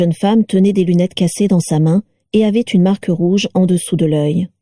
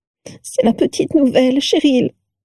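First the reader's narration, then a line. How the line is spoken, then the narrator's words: Sobbing. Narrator (French): sanglota la première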